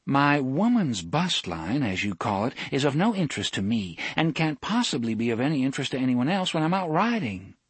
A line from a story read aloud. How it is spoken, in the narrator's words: Susan said